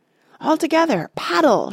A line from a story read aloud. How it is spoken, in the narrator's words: shouted Boromir